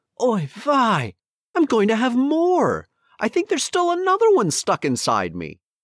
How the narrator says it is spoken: she cried

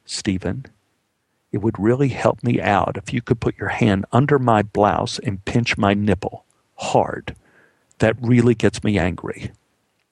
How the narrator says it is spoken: whispered

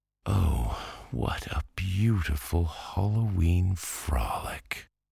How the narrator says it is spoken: sighed Babette

